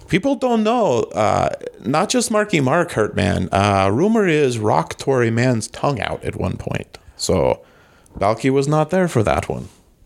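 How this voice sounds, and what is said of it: Cousin Balky character voice. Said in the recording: “Oh, well, Cousin Balky. ... Cousin Balky hanging low. ... Chicago, you know who accent? ... Balky, I cast you back to the Phantom Zone. ... Did Balky show up?”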